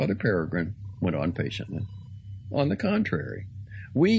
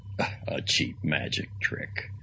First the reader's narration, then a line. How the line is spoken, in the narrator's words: muttered Father Stone